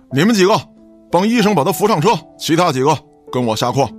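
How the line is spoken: Shouted command. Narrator (Chinese): 带队的警员此时也喊道

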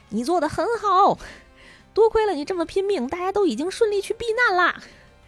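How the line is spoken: Loud shouting. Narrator (Chinese): 有一个声音从远处传来，就冲他耳边大声的嚷嚷

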